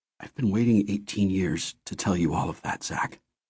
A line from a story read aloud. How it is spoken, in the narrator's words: he said quietly